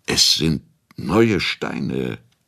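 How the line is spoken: Stammering. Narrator (German): stotterte Hradscheck

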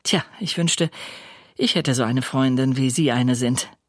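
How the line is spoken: Cheerful. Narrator (German): sagt fröhlich

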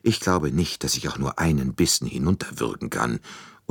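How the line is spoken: Murmured. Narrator (German): murmelte sie

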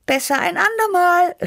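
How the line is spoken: Calling out. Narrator (German): rief ich

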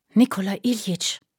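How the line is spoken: Loud whisper. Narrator (German): flüsterte er laut

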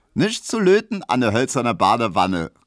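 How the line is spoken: Call. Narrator (German): rief Emma

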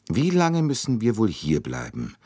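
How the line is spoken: Plain question. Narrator (German): fragte Mary Debenham

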